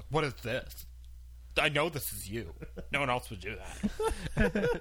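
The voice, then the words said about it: Angry imitation of another person's voice. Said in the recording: “That's a great impression of your sister. ... It's spot on. ... She's like super angry.”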